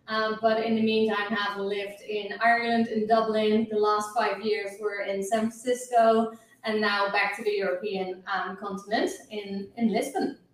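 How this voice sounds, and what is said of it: Slight Dutch accent. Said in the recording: “As you can hear, I have a little accent. I'm Dutch originally”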